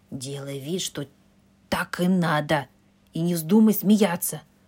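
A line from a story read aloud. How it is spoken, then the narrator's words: Whisper in ear. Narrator (Russian): шепнул он ей на ухо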